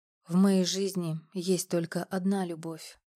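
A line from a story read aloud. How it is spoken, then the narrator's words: Whisper close to ear. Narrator (Russian): прошептал он у меня над ухом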